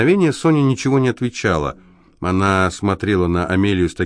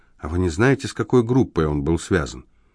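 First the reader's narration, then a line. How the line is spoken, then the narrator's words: Whisper. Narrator (Russian): Амелия прошептала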